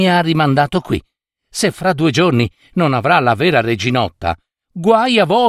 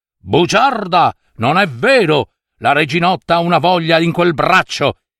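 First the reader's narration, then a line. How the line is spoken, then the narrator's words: Shouted. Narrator (Italian): urlò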